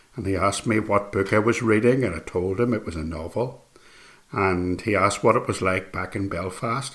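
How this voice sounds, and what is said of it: Northern Irish accent. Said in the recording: “he heard my accent, heard where I was from ... I was from Northern Ireland”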